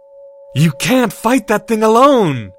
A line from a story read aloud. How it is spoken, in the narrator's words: Draco cried aloud